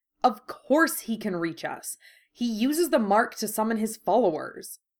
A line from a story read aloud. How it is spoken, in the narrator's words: spat